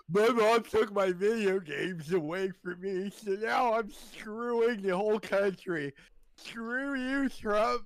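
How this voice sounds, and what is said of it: Mocking impression of a protester. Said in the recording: “your impression of Antifa is a lot funnier than mine”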